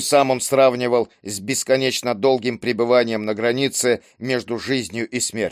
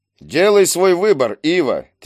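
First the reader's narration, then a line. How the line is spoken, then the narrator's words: Insistent, mocking. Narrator (Russian): твердил двойник, насмешливо кривя губы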